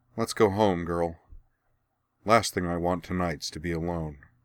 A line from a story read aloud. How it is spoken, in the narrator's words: sighing, Cora said